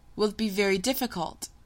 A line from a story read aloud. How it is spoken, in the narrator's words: he asked nervously